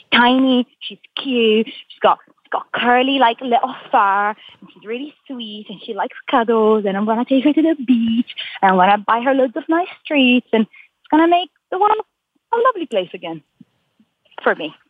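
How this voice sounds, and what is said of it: Excited speech with shifting mixed accents. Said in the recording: “when you get really excited about something, your accent switches between like four different accents ... now you're from Ireland. Oh, now you're from Italy. Oh, yeah, you sound like you might be from Morocco”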